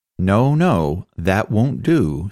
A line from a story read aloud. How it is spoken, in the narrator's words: said Mr